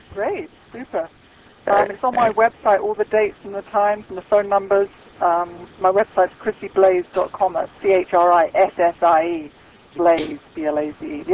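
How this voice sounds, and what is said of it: English accent. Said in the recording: “we can tell that you're English ... accent”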